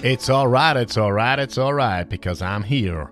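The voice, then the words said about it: Questionable put-on American accent. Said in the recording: “I don't know why I was doing an American accent there. Well, if that was an American accent.”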